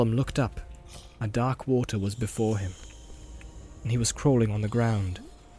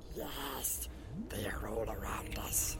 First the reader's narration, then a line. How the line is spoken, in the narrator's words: he whispered